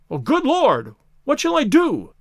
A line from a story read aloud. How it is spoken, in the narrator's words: cried the stranger, in an ecstasy of despair